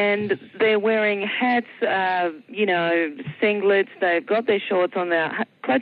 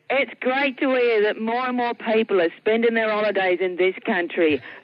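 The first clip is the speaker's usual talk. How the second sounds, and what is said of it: Deliberately bad English accent. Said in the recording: “I'm going to have to do it in my worst English accent”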